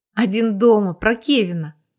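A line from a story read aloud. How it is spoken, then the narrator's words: Breathless happy surprise. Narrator (Russian): выдохнула Тоня, чувствуя себя от удивления счастливой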